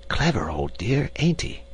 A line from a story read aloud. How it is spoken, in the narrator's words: he whispered to me